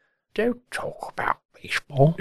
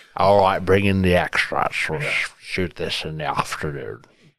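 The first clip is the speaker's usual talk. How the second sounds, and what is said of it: Imitates another person's voice. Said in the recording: “that is my Hitchcock impersonation”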